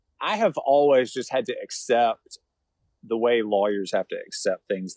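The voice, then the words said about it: Southern Savannah drawl. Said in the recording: “you have that I don't know if it's a drawl or a, what is it? That's a Savannah thing, right? ... the Yankees call it a drawl.”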